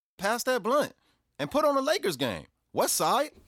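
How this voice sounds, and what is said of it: Put-on L.A. American accent. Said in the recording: “the American accent is much better for the street credibility ... how did you master that L.A. accent like that? You know, that's hard. ... doing this accent. I mean, I'll give you a little sample now. ... That is amazing. ... you sound just like my son's barber.”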